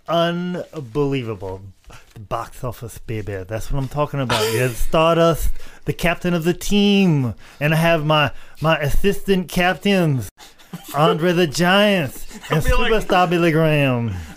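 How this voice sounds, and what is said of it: Soft-spoken impression with prominent lisp. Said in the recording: “impersonation ... The lisp is very prominent, baby. ... I do Dusty Rhodes he does in Florida, very softly talking to you.”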